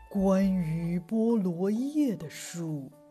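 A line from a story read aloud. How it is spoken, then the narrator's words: Soft, old woman. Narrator (Chinese): 奶奶轻声的说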